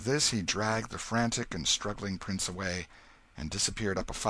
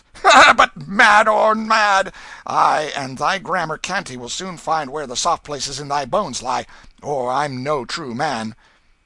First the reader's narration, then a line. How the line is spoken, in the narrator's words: said with a coarse laugh and an oath